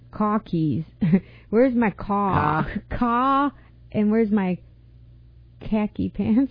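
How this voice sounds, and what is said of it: Put-on Boston accent. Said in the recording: “can you do a Boston accent?”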